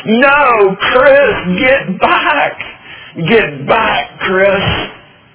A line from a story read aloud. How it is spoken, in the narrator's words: I screamed from the dugout